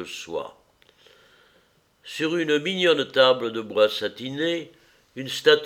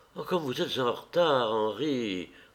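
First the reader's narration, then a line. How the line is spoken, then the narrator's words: Murmur. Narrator (French): murmura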